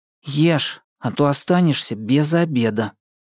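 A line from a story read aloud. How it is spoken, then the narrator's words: Through clenched teeth. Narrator (Russian): процедил сидящий рядом Андрей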